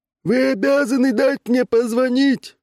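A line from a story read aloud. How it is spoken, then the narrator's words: Screaming at full volume. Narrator (Russian): Что из мочи вопил дядюшка Джордж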